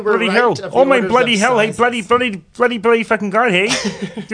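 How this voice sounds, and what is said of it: Put-on accent. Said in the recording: “I like how we did the accent there. ... Nailed it.”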